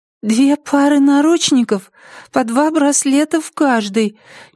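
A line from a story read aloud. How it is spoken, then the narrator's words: Uncertain young voice. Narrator (Russian): неуверенно начал молоденький голос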